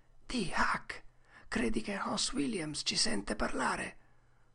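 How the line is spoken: Quiet voice. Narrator (Italian): Tom disse sottovoce

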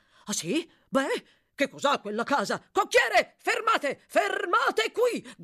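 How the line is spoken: Doctor shouting. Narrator (Italian): gridò il dottore

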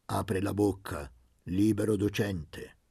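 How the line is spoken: Peremptory tone. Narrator (Italian): Disse con tono perentorio

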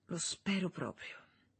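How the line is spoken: Whispered. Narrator (Italian): sussurrò lei

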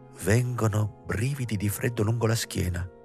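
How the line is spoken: Murmur in hushed silence. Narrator (Italian): mormorò la Motz in mezzo a rispettoso silenzio

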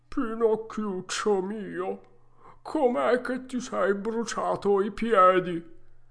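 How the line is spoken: Sobbing. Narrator (Italian): coi luccioloni che gli cascavano giù per le gote, gli disse, singhiozzando

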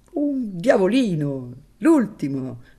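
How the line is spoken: Forced laughter. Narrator (Italian): disse ridendo con sforzo

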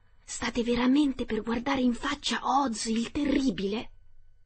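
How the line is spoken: Whisper. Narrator (Italian): uno di loro bisbigliò

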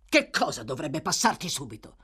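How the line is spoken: Savage voice. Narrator (Italian): chiese Sykes con una voce selvaggia

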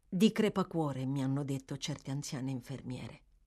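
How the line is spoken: Murmur to oneself. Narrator (Italian): mormorò Oliver, ma più come se stesse parlando tra sé che rispondendo a Noah

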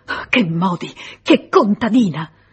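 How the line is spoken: Distraught stammering. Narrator (Italian): era fuori di sé, balbettava

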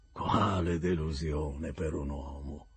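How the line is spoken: Hoarse vulgar exclamation. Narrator (Italian): esclamò con voce roca e accento volgare

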